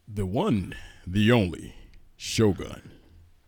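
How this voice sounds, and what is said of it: Put-on radio announcer voice. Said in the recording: “You don't sound like him. ... This is my radio voice.”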